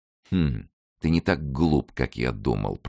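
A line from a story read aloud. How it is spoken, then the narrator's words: Muttered to himself. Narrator (Russian): пробормотал про себя Мазарини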